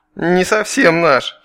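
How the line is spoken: Giggling. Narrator (Russian): хихикнул Раз

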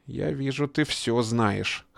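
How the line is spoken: Hoarse. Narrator (Russian): хрипло произнес он

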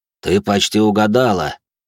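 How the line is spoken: Grumble. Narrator (Russian): проворчал Винсент

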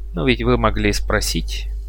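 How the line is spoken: Soft reply. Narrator (Russian): мягко ответил Орин

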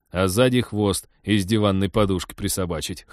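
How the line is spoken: Chuckling. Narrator (Russian): хохотнул Теодор

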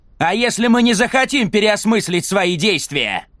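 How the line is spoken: Shouting. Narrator (Russian): прокричал Джек

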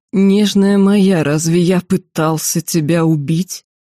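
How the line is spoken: Convulsed hiss. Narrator (Russian): Лицо его исказилось судорогой, и кесарь прошипел

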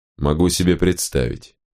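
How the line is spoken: Even voice. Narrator (Russian): ровным голосом ответил Венитар

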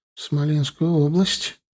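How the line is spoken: Quiet. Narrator (Russian): тихо проговорила Лина

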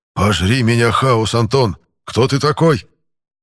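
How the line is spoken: Strained, squeezed out. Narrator (Russian): Только и смог выдавить из себя Дюрер

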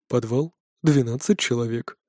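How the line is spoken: Whisper from darkness. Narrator (Russian): прошептала тьма

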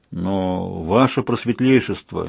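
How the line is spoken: Hesitant. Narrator (Russian): неуверенно произнес Ринпо

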